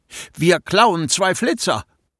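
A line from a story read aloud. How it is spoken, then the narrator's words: Called out, thinking feverishly. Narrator (German): rief ich, während ich fieberhaft überlegte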